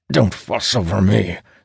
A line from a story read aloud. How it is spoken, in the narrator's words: Sturgis grunts